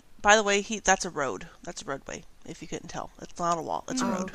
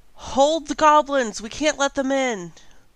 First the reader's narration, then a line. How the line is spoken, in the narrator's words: yell